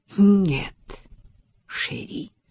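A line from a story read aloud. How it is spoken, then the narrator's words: Regretful purr. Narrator (Russian): с сожалением промурлыкала она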